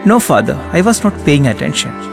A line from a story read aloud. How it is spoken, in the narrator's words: she said